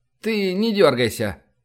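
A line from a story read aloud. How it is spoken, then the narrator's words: Flat colorless voice. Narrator (Russian): Все тем же уже знакомым бесцветным голосом сказал Шкура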